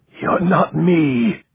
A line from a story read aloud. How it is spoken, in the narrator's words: the man gasped